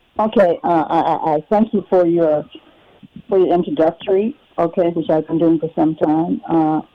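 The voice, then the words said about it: Muffled-sounding voice. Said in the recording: “you sound a little muffled”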